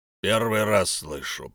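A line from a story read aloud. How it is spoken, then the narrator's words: Grumbling mutter. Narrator (Russian): пробурчал человек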